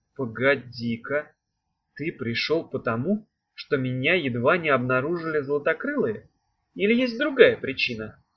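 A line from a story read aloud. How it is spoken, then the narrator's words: Plain question. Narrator (Russian): спросила она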